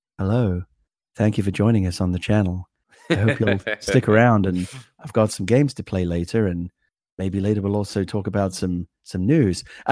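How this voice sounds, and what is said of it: Sleepy, soothing public-radio announcer voice. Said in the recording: “NPR radio voice ... you sound like someone from NPR, and it's like this kind of sleepy time chamomile tea kind of voice”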